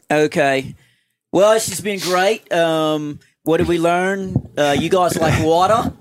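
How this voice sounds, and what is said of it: Put-on Australian accent. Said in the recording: “in your Australian accent?”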